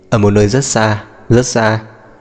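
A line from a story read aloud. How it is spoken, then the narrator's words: Laughing. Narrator (Vietnamese): Lý Minh Ngàn bật cười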